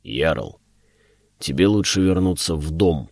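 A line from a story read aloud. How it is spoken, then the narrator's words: Deep bass voice. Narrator (Russian): пробасил он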